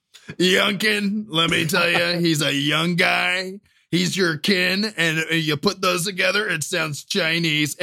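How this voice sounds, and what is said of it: Imitates another person's voice. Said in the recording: “your best Trump impression”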